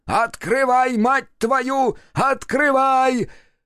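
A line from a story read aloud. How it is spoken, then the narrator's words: Furious yelling. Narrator (Russian): заорал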